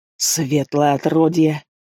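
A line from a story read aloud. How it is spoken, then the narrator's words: Man's angry hiss. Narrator (Russian): прошипел дядька, рожу которого перекосило от злости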